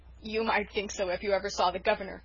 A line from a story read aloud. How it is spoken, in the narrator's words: chuckled Dan